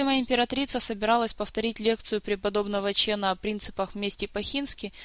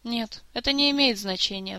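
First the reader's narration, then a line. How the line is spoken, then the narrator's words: Sighing. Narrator (Russian): вздохнула Суон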